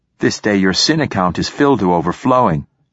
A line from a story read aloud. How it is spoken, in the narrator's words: said the sailmaker